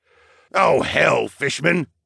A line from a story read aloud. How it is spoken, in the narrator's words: Darwin barked